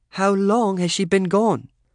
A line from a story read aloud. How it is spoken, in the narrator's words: Lorraine asked, trying to be kind in that English accent of hers